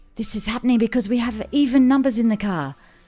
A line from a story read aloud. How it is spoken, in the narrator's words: yelled Steve-O